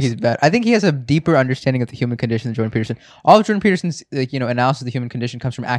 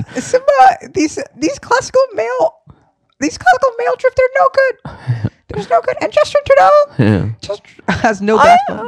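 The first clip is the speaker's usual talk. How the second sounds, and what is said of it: High-pitched Mickey Mouse-like voice. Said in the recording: “Just go high. Just go high. Just do like a dumb Mickey Mouse. ... Yeah, it's actually pretty good. I think it's better than mine.”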